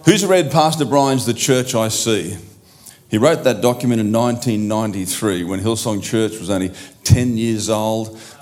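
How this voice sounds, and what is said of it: Australian accent. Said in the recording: “how's my Aussie, accent, Yotha boy? Is it all right?”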